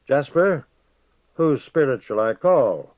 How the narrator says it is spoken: said in a clear voice

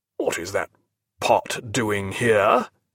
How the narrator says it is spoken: he asked in a harsh, suspicious voice

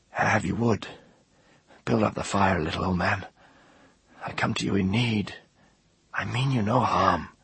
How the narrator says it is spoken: whispered

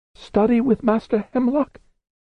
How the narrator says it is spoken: said Diamond, his voice up half an octave

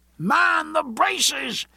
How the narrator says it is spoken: he shouted in a voice loud enough to carry over the all-pervading sound of the ship crashing on over the reef

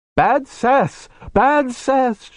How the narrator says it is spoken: she cried

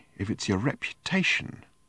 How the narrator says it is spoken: said quietly

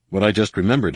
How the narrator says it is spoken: Han said

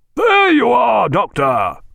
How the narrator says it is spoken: cried Jack, very loud

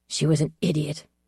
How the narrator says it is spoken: I said harshly

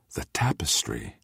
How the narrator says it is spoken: Mogian whispered

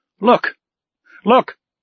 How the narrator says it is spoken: exclaimed the Canadian

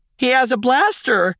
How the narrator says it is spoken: a Twi'lek female shouted

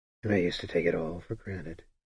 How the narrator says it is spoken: Sparrowhawk murmured

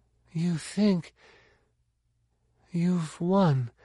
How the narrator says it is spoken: she said, slurred, but utterly lucid and unafraid

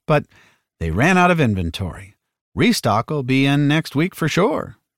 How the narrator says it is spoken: she gave a grim chuckle

